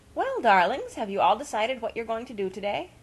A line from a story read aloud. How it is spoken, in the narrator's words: asked Mrs